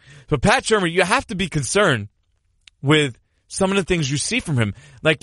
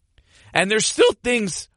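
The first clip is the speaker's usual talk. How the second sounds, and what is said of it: Voice cracks mid-sentence. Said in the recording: “Did my voice just crack there? I think my voice just cracked there. I'm hitting puberty.”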